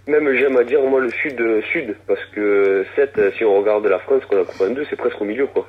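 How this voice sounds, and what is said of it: Southwestern French accent. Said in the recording (French): “basé dans le Sud-Ouest comme ton accent le, nous l'indique”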